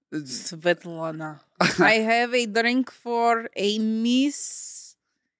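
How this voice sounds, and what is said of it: Put-on Russian accent. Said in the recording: “Accent Russian ... we're two Starbucks, Russian Starbucks workers”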